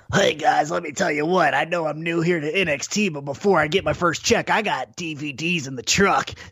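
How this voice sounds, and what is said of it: Imitates another person's voice. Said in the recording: “hear his Don West impersonation”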